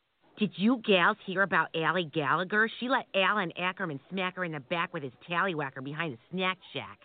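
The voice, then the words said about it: Exaggerated Minnesota accent. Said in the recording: “Nobody here in Maryland understands a single word you're saying. ... You should move back to Minnesota. ... I love how you guys sound up there.”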